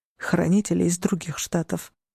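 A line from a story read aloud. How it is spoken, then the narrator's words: Muttered reply. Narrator (Russian): пробормотал он в ответ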